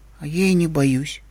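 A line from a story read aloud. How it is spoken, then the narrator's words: Timid. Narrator (Russian): робко сообщил тот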